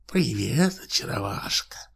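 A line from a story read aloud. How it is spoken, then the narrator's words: Whisper. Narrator (Russian): шепнула Силклайну корга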